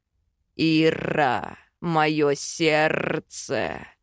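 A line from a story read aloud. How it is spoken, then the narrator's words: Dragon-voiced growl. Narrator (Russian): Драконьим голосом рычит Хакан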